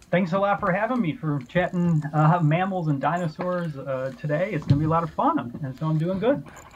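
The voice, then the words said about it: Midwestern American accent. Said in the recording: “my accent ... it sounds pretty Midwestern to me”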